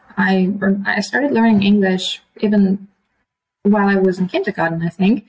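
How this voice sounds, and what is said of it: Slightly American-sounding English accent. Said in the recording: “your accent is actually a little bit American”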